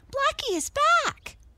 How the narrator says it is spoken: cried Mabel

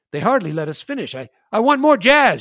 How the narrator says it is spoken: shouted Mustache Bill

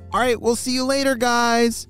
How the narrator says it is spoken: shouted Momo

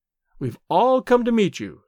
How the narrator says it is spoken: she said

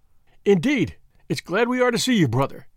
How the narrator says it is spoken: cried the chairman

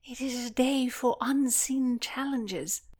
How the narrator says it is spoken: piped up

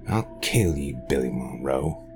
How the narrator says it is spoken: he growled

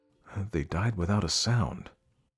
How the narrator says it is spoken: muttered the Cimmerian

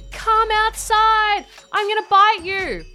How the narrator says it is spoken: she was yelling out at Jess saying

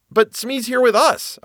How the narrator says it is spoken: I cried

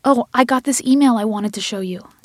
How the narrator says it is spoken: Diana exclaimed

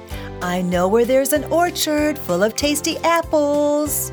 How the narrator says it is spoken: he called sweetly

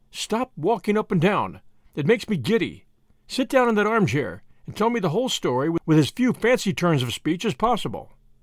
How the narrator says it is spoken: said Tuppence firmly

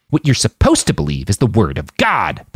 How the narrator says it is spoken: the man snarled

